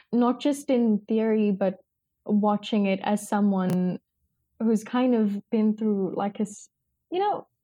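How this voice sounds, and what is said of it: Teary, emotional, halting speech. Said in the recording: “I'm getting a bit teary, so my words are coming up a little bit messed up”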